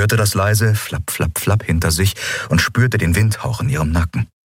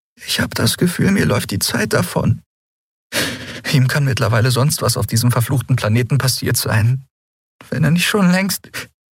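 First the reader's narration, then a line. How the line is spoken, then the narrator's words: Choked voice. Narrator (German): sagte sie mit erstickter Stimme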